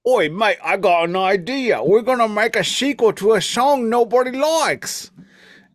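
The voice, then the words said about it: Imitated British accent, Monty Python-style. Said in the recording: “Your imitation of a British accent. ... my imitation of Monty Python.”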